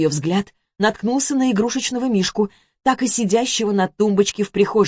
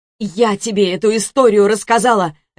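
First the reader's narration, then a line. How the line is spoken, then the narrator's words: Barking shout. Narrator (Russian): рявкнула Карина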